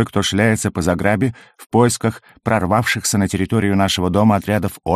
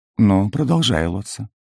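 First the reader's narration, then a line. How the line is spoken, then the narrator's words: Gently asked. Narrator (Russian): мягко попросила она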